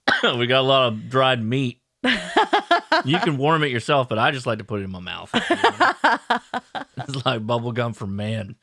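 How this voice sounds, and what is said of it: Macho strong dude character voice. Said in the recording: “is that your camping accent? ... It's just my general strong dude man. Voice. ... like the guy who drives like the diesel truck that hauls things”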